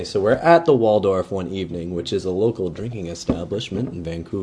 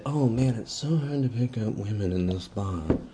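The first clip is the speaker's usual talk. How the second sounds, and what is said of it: Impression of a friend's voice. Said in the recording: “That's my best Liam impersonation I have. That's all I have to offer.”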